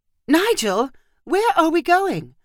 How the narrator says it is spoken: Marissa cried

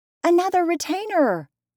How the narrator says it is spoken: cried Nora

